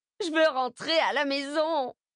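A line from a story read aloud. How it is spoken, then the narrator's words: Whimpering. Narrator (French): pleurnichait-elle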